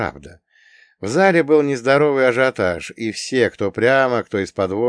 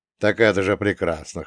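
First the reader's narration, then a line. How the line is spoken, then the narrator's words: Amused grunt. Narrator (Russian): хмыкнул я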